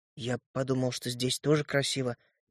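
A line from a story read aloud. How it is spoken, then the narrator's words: Confused mumble. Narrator (Russian): промямлил я, сбитый с толку ее упреками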